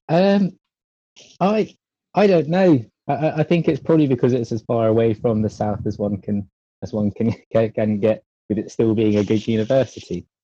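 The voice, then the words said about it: Southern English accent. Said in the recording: “with that accent, obviously being from London, you can hear that I'm keep remarking on his accent because it's a cool one”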